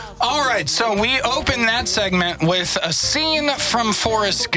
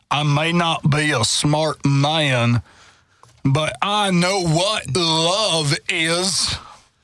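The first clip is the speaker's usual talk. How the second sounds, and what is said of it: Imitates a movie character's voice. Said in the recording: “That was a good impersonation.”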